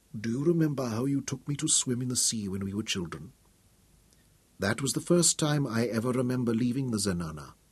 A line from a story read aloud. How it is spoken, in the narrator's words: Without looking at him, she whispered